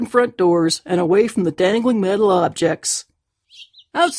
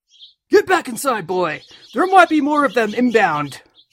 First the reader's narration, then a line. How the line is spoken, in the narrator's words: he shouted